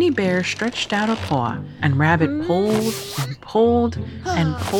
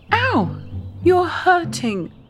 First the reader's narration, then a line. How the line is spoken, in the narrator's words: cried Winnie